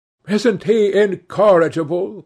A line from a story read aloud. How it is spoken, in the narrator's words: cried Dorian